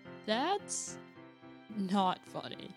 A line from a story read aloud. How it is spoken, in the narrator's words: I said with a groan